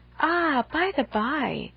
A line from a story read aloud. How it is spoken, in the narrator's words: with a sudden accession of gay thought, she cried